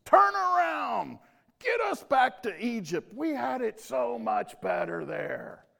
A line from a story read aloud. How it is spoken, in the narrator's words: the people of Israel are yelling at Moses